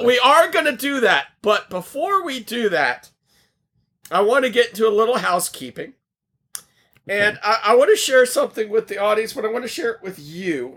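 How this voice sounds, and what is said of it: Loud, near-shouting, strained voice. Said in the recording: “are you shouting right now? ... I'm losing my voice, so I might be projecting a little bit more.”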